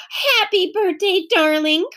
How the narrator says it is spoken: cried Aunt Beatrice

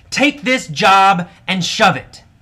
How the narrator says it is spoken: AJ yelled at his boss

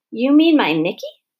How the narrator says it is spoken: asked Mrs

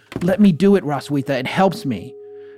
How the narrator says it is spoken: she would exclaim

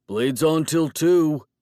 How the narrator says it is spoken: he shouted after me

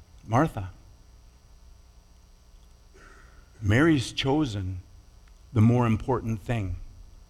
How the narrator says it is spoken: Jesus gently reprimands her, saying

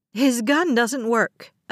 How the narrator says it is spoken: a passenger shouted

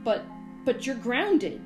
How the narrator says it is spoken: he sputtered

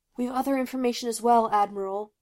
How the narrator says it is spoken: gasped the leader, tugging ineffectually at the cloaked man's grip

